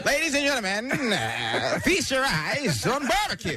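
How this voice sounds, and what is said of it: Old-timey auctioneer voice. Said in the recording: “I became a 1960s auctioneer”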